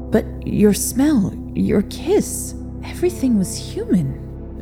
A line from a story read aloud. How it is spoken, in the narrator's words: Victor mumbled